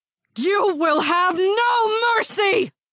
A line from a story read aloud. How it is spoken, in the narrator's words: she yelled